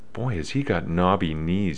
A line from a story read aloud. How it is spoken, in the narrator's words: Bruce whispered to me